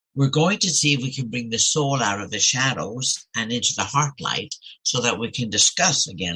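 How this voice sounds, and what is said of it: Speaks with a noticeable accent. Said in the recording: “My accent sometimes gets in the way.”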